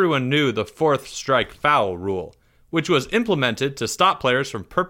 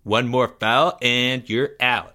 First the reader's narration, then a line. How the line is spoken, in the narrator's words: said Greg, unnecessarily